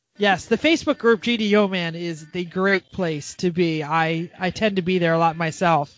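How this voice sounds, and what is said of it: Usual voice. Nothing is said of it.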